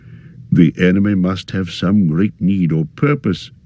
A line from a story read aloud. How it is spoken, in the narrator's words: said Radagast